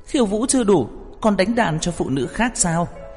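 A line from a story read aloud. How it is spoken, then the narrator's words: Anxious cry. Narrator (Vietnamese): Đường Khả Hinh trái tim căng thẳng, khẩn trương kêu lên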